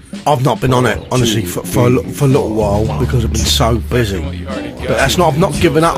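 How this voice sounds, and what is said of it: Usual voice. Nothing is said of it.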